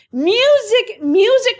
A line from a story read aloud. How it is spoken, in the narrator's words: cried the emperor